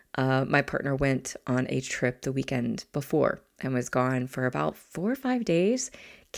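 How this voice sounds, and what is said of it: Weakened, hoarse voice from illness. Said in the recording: “I don't fully have my voice right now. It's actually the best my voice has been over the past several days ... my voice started”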